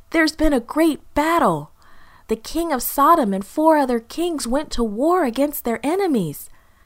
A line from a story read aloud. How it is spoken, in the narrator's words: the man gasped